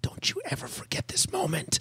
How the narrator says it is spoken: I whispered in her ear

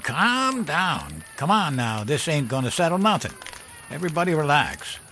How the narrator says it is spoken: Fred Walsh hollered

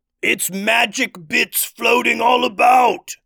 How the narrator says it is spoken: yelled one troll

